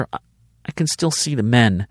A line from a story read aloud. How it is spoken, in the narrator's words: she pleaded